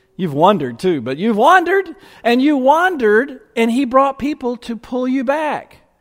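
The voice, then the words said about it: Speaker's own regional accent. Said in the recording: “with my accent it's hard to tell”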